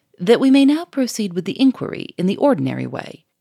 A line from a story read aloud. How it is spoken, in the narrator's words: said Monsieur Fomeray, in an impressive tone